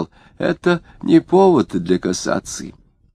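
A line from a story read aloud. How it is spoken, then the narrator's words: Fairly clear muttering. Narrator (Russian): поверенный Марины довольно внятно пробормотал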